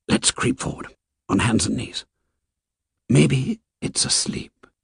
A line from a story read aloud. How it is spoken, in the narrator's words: Jack whispered